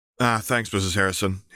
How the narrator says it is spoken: Harry replied

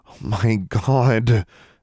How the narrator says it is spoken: Alexandra groaned

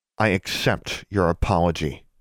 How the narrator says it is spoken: Alexandra said through gritted teeth

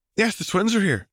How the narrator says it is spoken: Luna was happily telling Angelina

